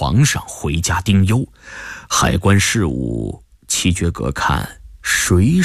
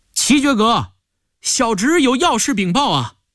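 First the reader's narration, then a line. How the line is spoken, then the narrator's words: Calling through doorway. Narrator (Chinese): 钱江隔着门槛叫道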